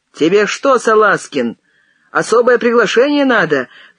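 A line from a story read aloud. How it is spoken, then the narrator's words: Shout. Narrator (Russian): крикнул, приостанавливаясь, Кадыков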